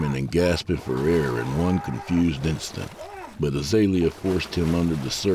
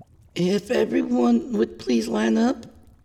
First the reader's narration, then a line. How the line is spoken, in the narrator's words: she called, her voice shaky